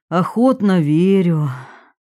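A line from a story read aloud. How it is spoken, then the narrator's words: Sigh. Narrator (Russian): Долматов вздохнул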